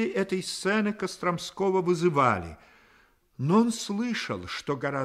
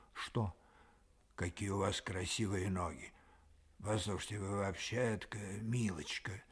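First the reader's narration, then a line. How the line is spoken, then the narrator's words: Whispered reply. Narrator (Russian): отозвалась также шепотом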